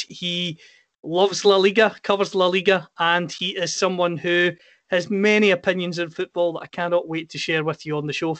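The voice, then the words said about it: Scottish accent. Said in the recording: “my accent, I'm from Scotland.”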